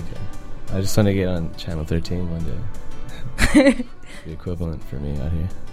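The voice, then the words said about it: Put-on radio announcer voice. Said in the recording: “this voice that I'm using right now ... radio voice”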